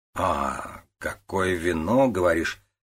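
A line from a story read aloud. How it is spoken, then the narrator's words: Drawling. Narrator (Russian): протянул Вэн Сяо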